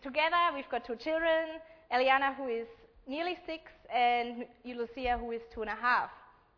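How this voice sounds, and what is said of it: German-accented English. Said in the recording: “I don't have a true Australian accent. I'm not a true Aussie. My background is German.”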